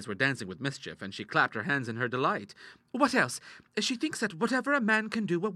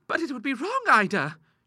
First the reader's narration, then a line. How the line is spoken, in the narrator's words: she cried at last